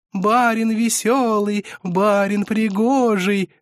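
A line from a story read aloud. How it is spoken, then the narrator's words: Singsong chant. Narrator (Russian): затянули они нараспев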